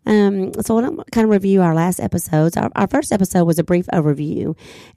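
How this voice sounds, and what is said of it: Sick, congested-sounding voice. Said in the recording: “forgive my voice this time. I'm trying to get over a cold.”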